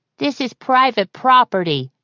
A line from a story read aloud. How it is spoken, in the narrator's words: he called, in a carrying voice